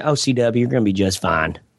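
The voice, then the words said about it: Light put-on Southern accent. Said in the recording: “she used to always say in a little Southern accent”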